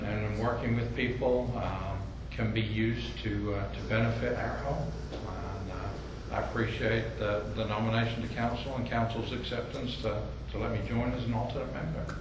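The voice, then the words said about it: Slight English accent. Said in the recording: “You certainly picked up a little bit of an accent. ... I was born in England”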